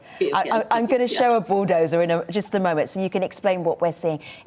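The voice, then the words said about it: London English accent. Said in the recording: “My accent is based in London”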